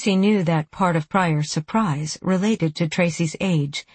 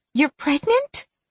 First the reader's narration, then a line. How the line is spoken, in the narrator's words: Pryor asked, her voice rising with disbelief